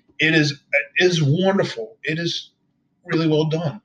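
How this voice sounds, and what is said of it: Emotional voice, cracking. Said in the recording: “My voice is cracking, and my voice is getting a little bit emotional”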